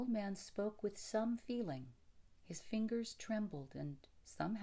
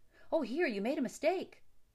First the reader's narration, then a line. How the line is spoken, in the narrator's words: cried Bert